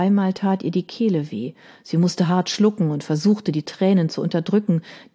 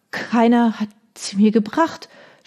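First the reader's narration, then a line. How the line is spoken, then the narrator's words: Stammering. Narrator (German): stammelte sie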